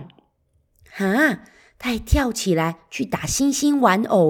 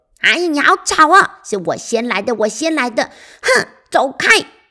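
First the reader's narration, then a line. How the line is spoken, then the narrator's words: Angry. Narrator (Chinese): 小狐狸一边生气地说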